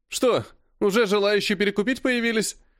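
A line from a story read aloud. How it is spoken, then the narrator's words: Pleased chuckle. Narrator (Russian): довольно хохотнул Серый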